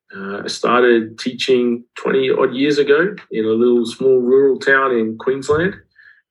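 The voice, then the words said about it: Australian accent. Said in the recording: “You can probably pick up from the accent that I'm Australian.”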